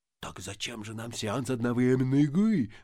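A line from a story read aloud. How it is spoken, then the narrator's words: Whispering. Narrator (Russian): зашептал администратор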